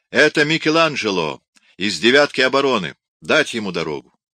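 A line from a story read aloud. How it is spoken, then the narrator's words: Guards shouting. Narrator (Russian): Стража кричала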